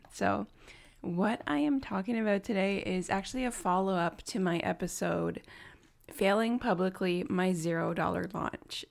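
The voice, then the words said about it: Extra deep, tired morning voice. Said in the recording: “my voice sounds like extra deep or um, not quiet, tired, it is because it is 9 a.m. here”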